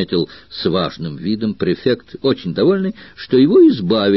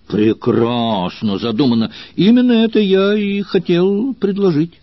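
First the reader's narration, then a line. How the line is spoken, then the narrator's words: Surprised exclamation. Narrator (Russian): воскликнул Метти Лебион, никак не ожидавший, что Сервилиан возьмет на себя руководство всей операцией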